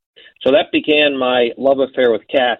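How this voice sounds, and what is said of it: Sarcastic delivery. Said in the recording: “I say that sarcastically.”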